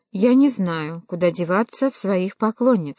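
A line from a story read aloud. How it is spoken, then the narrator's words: Plain. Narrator (Russian): сказал он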